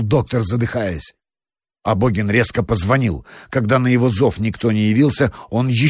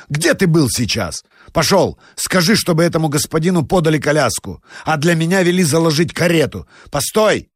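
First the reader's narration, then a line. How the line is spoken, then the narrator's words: Shout. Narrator (Russian): крикнул он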